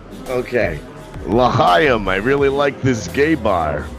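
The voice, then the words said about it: Attempted Russian accent sounding Jewish. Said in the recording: “Let's do Russian. Two Russians having tea at a gay bar. ... that's Jewish. ... I always end up Jewish when I do a Russian”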